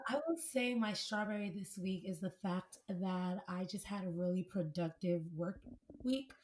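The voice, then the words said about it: Raspy, hoarse voice. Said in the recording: “losing my voice ... I naturally have a very raspy voice ... my throat is constantly hurting. I'm constantly losing my voice.”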